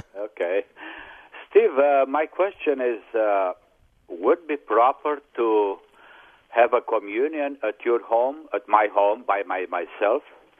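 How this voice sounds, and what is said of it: Speaks with a noticeable accent. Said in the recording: “it's good to hear your accent again.”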